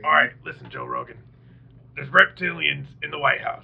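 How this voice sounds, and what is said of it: Imitates another person's voice. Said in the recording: “That's my Alex Jones impersonator.”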